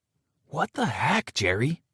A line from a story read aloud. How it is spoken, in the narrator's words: I hissed, not wanting to alert my dad to what just happened